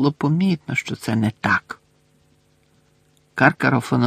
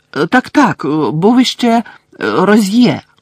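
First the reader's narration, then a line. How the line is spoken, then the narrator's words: Quick exclamation. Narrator (Ukrainian): швидко вигукнув Каркаров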